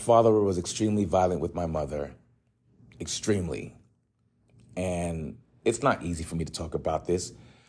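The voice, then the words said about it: Strained emotional voice, long pauses. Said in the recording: “It's tough. You can hear it in my voice. The long, awkward pauses, it's very tough.”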